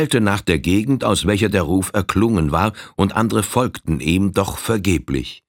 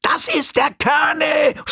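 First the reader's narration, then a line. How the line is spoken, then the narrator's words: Shouted. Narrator (German): schrie Droll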